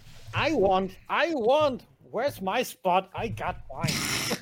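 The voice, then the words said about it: Imitates another person's voice. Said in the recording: “That's a very good impression”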